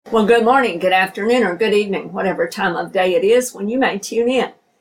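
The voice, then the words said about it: Slightly unwell, off-sounding voice. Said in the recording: “My voice might sound a little bit different right now. I've been a little tiny bit under the weather the last few days, so I'm hoping to get my voice back in full here very soon”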